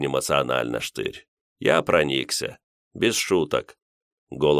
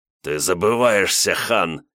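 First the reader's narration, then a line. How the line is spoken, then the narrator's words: Offended growl over phone. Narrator (Russian): Штырь зарычал в трубку, будто услышал самое страшное оскорбление, которое только можно придумать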